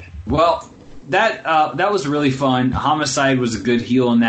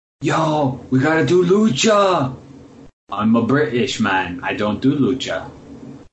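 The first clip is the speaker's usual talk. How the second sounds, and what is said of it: Put-on British accent sounding Russian. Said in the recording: “Your Nigel sounds like Russian. ... No, it sounds Russian.”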